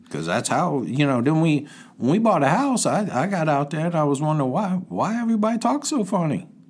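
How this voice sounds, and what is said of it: Cajun accent. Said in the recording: “I guess I picked up a dialect ... people often think ... that you're African-American ... that's how ... got the Cajun accent.”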